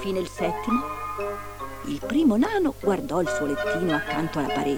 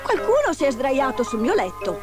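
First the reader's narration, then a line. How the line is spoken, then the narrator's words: Exclaimed. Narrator (Italian): esclamò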